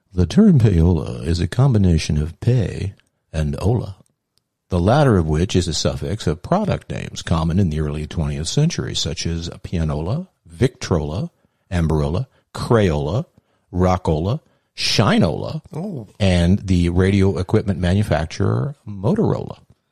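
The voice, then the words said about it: NPR-style radio announcer voice. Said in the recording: “my NPR voice”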